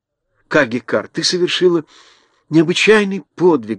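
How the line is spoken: Fervent exclamation. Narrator (Russian): горячо воскликнула Элли

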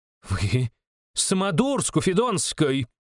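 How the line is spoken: Shrieked. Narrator (Russian): взвизгнула Фанвизина-старшая

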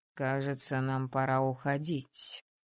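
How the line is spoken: Icy tone. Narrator (Russian): вновь ледяным тоном сообщил правитель

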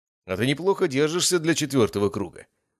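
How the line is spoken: Exclamation. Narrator (Russian): воскликнул Владимир Алексеевич

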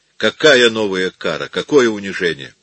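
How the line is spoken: Grim chuckle. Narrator (Russian): Он мрачно усмехнулся

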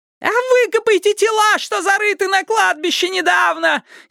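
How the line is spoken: Hysterical female shriek. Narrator (Russian): истерически завизжала какая-то женщина

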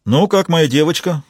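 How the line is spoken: Exclaiming. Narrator (Russian): воскликнул Фрэнк

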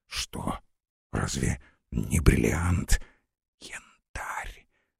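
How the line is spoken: Whisper. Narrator (Russian): шепнула

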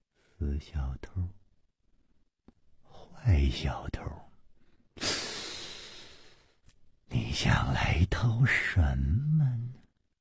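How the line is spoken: Dazed muttering. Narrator (Chinese): 呆呆的出神 喃喃地说

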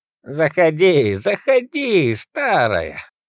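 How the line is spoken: Nasty old woman cackling. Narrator (Russian): мерзкая старуха расхохоталась

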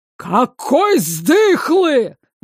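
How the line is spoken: Exasperated yell. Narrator (Russian): заорал министр, теряя последние остатки терпения

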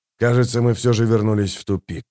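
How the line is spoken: Sullen grumble. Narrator (Russian): угрюмо буркнул Хават

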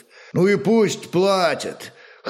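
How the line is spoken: Vague snort. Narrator (Russian): хмыкнул неопределенно Гунтар

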